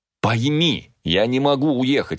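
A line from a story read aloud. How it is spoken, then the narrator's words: Exclamation. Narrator (Russian): воскликнул я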